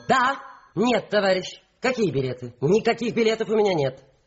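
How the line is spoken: Sharp shout. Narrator (Russian): Трапецкая резко крикнула

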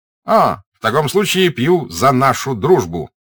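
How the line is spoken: Cheerful shout. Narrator (Russian): весело крикнул он

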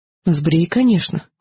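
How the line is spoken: Very calm. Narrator (Russian): очень спокойно сказала я

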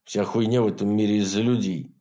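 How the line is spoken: Grumbling mutter. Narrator (Russian): буркнул Реднек

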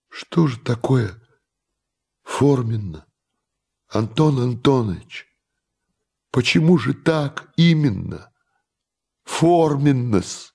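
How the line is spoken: Timid question. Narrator (Russian): робко спросил наш герой

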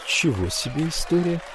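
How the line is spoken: Muttered. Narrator (Russian): пробормотал я

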